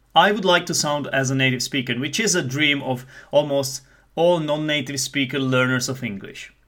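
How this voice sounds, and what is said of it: Mild Czech accent, somewhat British. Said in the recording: “I am a non-native English teacher, so I may not have the top-notch accent. Some people might say that I have a Czech accent. I would like to say that it's not as Czech as other Czechs might have it ... hopefully my accent is not very strong, and hopefully it is kind of British”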